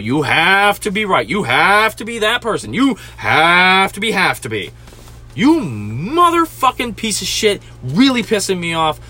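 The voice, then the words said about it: Imitates another person's voice, angry rant. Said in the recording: “I'm doing an excellent Joey Diaz impression right now”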